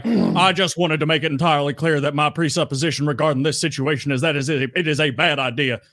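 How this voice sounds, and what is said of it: Good impression of a show character. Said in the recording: “you did a pretty good impression”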